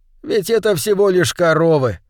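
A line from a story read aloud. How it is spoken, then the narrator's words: Laughing ever louder. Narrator (Russian): Священник смеялся все громче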